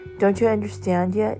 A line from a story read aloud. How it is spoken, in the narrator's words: Jesus asked